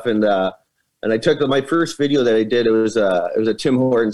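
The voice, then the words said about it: Thick Canadian accent. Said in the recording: “people have always said that I have a pretty thick Canadian accent”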